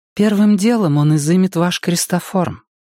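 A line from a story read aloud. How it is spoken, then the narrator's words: Gentle explanation. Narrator (Russian): ласково пояснила Энея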